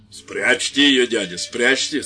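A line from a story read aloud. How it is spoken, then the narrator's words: Brother's stern threat. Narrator (Russian): сказал грозно брат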